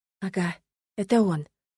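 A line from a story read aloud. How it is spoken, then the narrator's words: Near whisper in ear. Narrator (Russian): Практически прошептала Эриону на ухо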